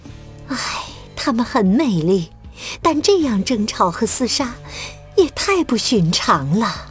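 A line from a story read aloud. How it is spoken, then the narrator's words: Regretful sigh. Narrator (Chinese): 女伙伴 遗憾地叹息着说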